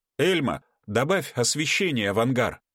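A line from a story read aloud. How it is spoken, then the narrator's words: Loud request. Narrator (Russian): громко попросил Игорь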